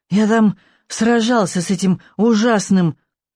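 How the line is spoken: Strained, grunting. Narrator (Russian): Тяжело кряхтя, Нюберг выдавил

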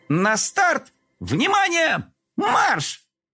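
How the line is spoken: Boys shouting in chorus. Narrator (Russian): Мальчишки хором закричали

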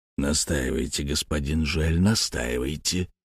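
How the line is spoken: Whisper. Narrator (Russian): прошептал банкир

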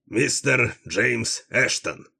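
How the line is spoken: Loud, feigned nonchalance. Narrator (Russian): громко проговорил Дилуло, делая вид, что визит столь важной персоны его нисколько не удивляет

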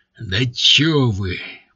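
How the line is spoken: Growled. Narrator (Russian): прорычал он

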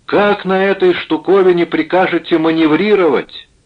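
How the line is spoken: Angry shout. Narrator (Russian): сердито закричал

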